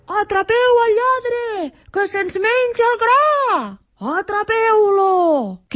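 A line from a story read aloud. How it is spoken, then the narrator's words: Furious shouting. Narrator (Catalan): cridaven els pagesos enfurismats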